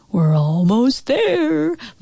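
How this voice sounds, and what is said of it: Scary voice. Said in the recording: “in kind of a scary voice.”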